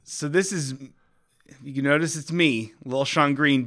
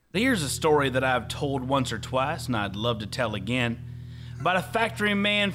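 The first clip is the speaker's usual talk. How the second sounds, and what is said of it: Western man voice. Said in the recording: “doing a Western man voice”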